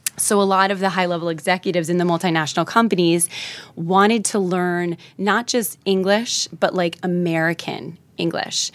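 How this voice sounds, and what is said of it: New Jersey American accent. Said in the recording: “They probably liked my Jersey accent.”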